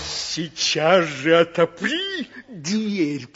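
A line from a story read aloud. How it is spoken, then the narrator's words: Growl. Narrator (Russian): прорычал волк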